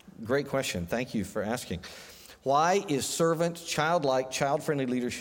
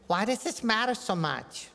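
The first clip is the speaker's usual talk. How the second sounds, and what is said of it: Imitates a young child's voice. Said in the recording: “in your young child imitation”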